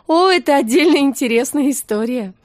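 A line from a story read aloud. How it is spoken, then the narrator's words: Laughing. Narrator (Russian): рассмеялась Настя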